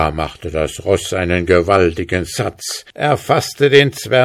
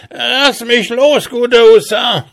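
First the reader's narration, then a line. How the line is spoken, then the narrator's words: Called out. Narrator (German): rief er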